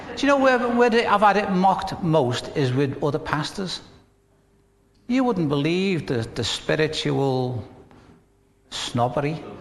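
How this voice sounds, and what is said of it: Northern English accent. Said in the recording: “accent of the northerners. Have you ever had your accent mocked? ... when they've heard my accent”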